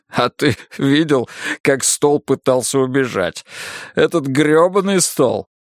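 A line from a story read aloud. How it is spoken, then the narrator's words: Laughing chuckle. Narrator (Russian): Хохотнул и я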